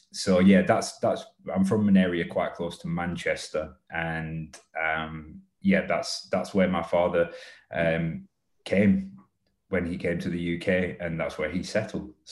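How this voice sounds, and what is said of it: Strong northern English accent. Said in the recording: “you can probably tell I've got quite a strong northern accent.”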